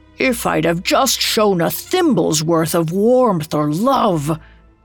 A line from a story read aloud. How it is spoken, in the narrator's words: He groaned in despair